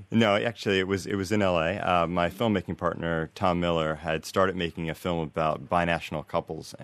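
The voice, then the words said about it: American accent. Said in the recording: “American accent, I can hear it”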